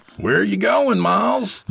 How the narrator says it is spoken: Jacob shouted after him

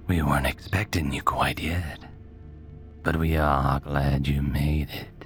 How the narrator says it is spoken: he said, his voice scraping and jangling like broken glass

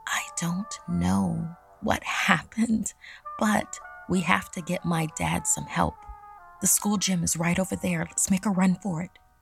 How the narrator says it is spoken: Ashlyn whispered to me

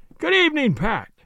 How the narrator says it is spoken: cried

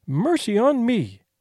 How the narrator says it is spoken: she exclaimed

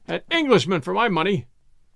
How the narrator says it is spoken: cried Ralston

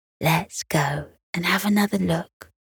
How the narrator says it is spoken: Beth whispered

